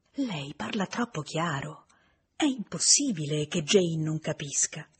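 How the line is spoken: Whispered. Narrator (Italian): Emma sussurrargli

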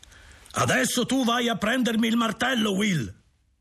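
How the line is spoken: Shouting. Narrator (Italian): grida

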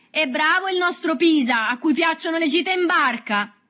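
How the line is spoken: Shouting. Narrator (Italian): Berto gridò

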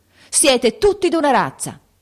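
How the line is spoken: Sudden shout. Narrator (Italian): gridò improvvisamente

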